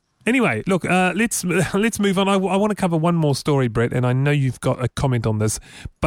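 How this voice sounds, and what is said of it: New Zealand accent. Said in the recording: “the Kiwi accent ... you have the same accent ... our accent ... It's quite lazy, I hear. It's a lazy accent.”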